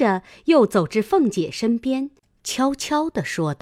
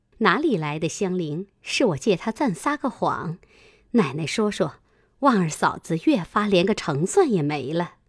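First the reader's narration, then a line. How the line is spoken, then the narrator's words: Laughing. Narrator (Chinese): 平儿笑道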